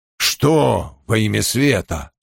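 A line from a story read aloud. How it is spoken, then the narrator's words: Grumbling mutter. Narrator (Russian): пробурчал Том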